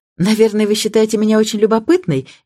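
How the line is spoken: Cheerful. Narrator (Russian): весело сказала она

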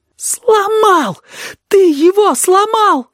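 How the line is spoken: Sobbing. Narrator (Russian): всхлипнул кузнечик

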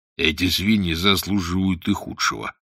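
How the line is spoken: Grumbling. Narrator (Russian): проворчал Волверстон

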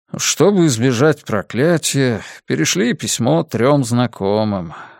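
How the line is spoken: Father sighing. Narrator (Russian): вздохнул отец

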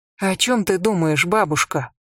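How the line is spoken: Timid question. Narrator (Russian): Ренесен робко спросила

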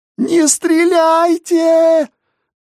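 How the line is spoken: Desperate shrill cry. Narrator (Russian): Отчаянным, пронзительным голосом загликотала Ася

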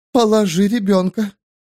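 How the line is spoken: Strangely reverent tone. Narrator (Russian): странно благоговейным тоном сказала Элас Силь

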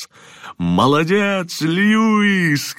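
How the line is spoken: Shouted. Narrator (Russian): крикнул Джонатан

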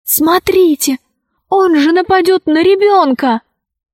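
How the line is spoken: Loud whisper. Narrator (Russian): Алиса громко прошептала

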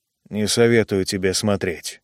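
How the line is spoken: Muttered. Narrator (Russian): пробормотал Джо

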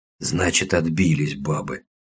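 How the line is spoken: Hoarse, matter-of-fact. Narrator (Russian): хрипло констатировал Гойко

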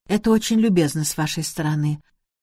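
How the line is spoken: Flat toneless thanks. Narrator (Russian): поблагодарила Эльвира своим невыразительным голосом

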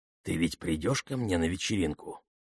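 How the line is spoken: Whisper. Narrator (Russian): прошептал он

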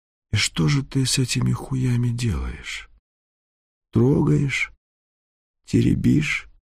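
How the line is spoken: Quiet question. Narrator (Russian): кто-то из крадунов тихо так его спрашивает

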